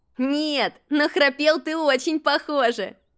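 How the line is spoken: Laughing. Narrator (Russian): рассмеялся Макси

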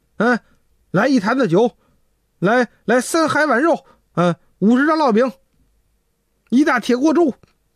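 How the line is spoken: Shouting, banging table. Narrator (Chinese): 这仨人拍着桌子就喊

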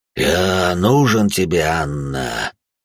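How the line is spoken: Dull rumbling. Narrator (Russian): Глухо пророкотало

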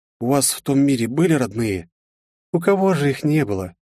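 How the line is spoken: Sad, pained young woman. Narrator (Russian): грустно улыбнулась девушка с отчетливой болью в глазах

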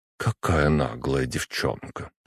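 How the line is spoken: Muttering. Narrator (Russian): пробормотала Кудрявцева

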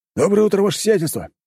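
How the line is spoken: Overly loud. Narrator (Russian): чересчур громко произнес

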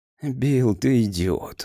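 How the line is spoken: Tired objection. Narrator (Russian): устало возразил Грейс

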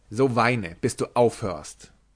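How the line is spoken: Angry. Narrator (German): ward er zornig und sagte

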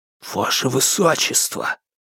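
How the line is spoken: Hissing. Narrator (Russian): прошипел Алексей

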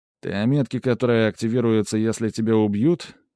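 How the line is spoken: Calm question. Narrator (Russian): спокойным тоном спросил я

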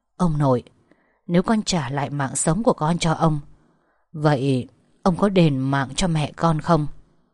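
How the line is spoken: Whispering. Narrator (Vietnamese): tiếng thì thầm

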